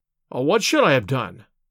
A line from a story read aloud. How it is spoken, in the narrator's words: I cried, with some heat